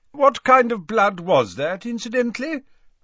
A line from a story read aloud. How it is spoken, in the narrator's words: asked Dumbledore loudly over the chiming of the newly unsmashed grandfather clock